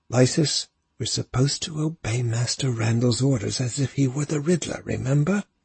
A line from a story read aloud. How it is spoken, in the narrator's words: Artan said urgently under his breath